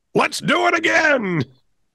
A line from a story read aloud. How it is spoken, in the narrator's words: he yelled